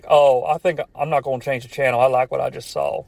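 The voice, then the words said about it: Imitates another person's voice. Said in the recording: “I don't know why I did that voice. ... I did like a Larry the Cable Guy voice to describe a wrestling fan.”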